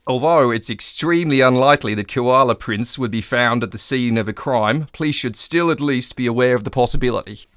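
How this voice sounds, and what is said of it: Put-on Australian accent. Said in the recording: “I'll do this in the Australian accent it deserves.”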